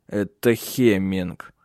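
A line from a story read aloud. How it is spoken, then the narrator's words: Through gritted teeth. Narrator (Russian): сквозь зубы процедил Тенгель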